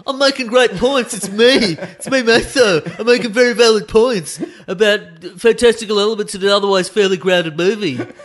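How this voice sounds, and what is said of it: Impression of a fellow co-host. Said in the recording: “It's a good impression of me. It's a good that's a fantastic impression of you doing an impression of me.”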